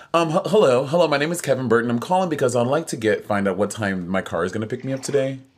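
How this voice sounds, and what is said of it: Polite customer service phone voice. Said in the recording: “customer service voice”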